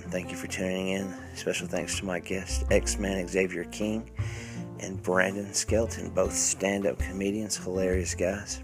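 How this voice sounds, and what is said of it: Nasal, stuffy congested voice. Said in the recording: “Been a little bit under the weather here lately. Sorry if my voice is kind of nasally or stuffy. I've had the whole influenza hit”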